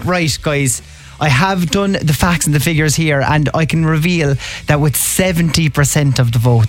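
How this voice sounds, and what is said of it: Cork Irish accent. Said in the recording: “cork it up? ... How could I make it more cork than speaking in my own accent?”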